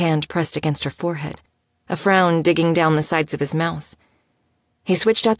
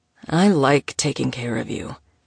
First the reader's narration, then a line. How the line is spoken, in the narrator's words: he rumbled